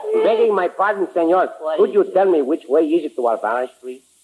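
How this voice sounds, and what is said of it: Put-on Mexican Spanish accent. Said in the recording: “take that Tijuana accent with you”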